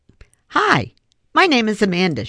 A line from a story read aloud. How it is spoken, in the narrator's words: she said cheerfully